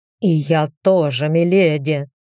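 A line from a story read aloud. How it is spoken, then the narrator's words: Pitiless growl. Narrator (Russian): прорычал Дамьен без жалости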